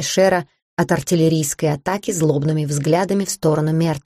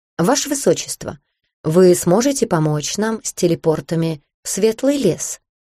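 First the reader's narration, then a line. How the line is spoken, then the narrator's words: Plain. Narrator (Russian): спросил он Шера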